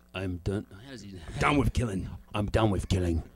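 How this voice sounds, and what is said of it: Low-pitched imitation of an actor's voice. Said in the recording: “You weren't low enough. You didn't get that Jason Statham.”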